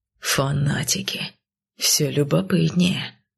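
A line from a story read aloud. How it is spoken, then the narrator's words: Hiss. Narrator (Russian): прошипел Кайл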